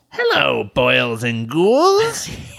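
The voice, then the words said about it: Raspy cackling horror-host character voice. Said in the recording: “That hurts to do that voice. That's the Crypt Keeper.”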